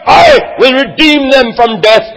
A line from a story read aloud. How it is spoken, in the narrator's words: God cried